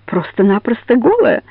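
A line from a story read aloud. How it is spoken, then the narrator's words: Loud laughter. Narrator (Russian): расхохотался Лизогуб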